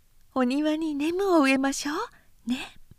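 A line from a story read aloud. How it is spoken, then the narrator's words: Whisper. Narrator (Japanese): なおはこう半三郎にささやいた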